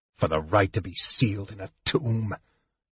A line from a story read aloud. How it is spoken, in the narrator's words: Sturm muttered